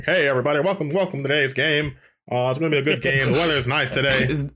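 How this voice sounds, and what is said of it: Sports commentator voice. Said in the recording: “Put on your commentator voice.”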